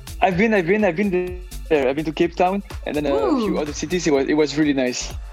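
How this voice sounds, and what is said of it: Belgian accent. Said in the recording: “I love your accent... You are from Belgium.”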